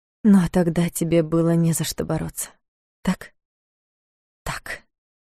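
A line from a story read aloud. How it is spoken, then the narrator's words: Muttering to herself. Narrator (Russian): Пробормотала она, отвечая сама себе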